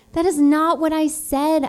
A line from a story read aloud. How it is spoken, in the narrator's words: shouted over the chopping water